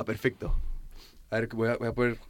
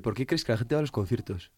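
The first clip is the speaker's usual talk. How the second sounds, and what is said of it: Radio announcer voice. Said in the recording (Spanish): “con voz de locutor de radio”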